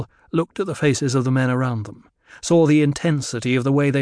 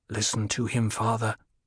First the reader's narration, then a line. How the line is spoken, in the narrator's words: Paul said in a low voice